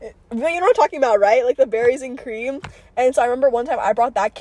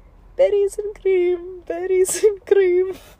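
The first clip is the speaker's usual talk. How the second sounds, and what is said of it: Sung in a put-on Indian accent. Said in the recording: “Why did I sing like an Indian accent?”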